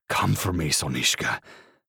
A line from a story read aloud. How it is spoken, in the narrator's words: I hiss